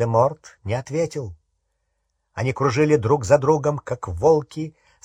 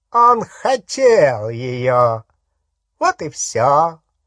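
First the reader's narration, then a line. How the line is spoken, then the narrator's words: Mocking. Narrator (Russian): насмешливо сказал Волан-де-Морт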